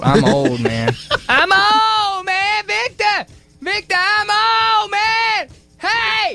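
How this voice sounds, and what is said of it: Yelling loudly. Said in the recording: “Why are you yelling at him?”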